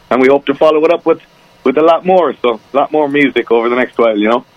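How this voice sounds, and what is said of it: Irish accent. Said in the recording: “when you talk to me, of course, you can tell your Irish accent. ... when I talk, the Irishness comes back in again”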